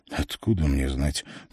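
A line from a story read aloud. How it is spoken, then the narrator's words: Mumbled. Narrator (Russian): пробормотал Лелле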